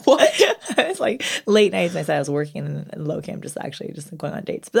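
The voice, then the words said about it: Quiet, weak voice, losing it. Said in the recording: “my voice is very, like... You're very quiet. ... I think I'm getting sick, to be honest. I think I'm losing my voice”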